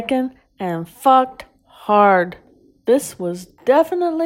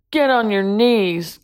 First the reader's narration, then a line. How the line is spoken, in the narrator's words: Ben growled